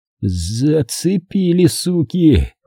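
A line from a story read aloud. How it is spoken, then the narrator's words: Surprised drawl. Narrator (Russian): удивленно протянул он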